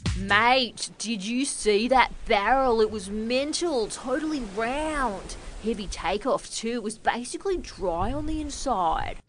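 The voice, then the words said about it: Put-on Australian surfer accent. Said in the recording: “my impression of an Aussie surfer dude”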